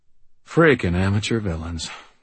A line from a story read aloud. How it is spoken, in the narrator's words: I muttered, glowering